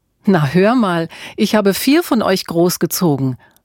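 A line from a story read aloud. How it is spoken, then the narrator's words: Laughing mother. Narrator (German): lachte Mutter Auguste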